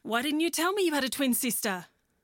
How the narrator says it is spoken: she exclaimed

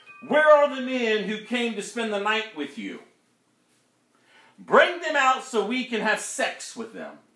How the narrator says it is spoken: they shouted to Lot

